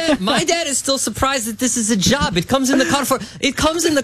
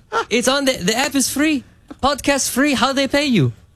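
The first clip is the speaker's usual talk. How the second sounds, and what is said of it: Put-on accent imitating a father. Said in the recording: “My dad doesn't have an accent. It's just funnier for the story.”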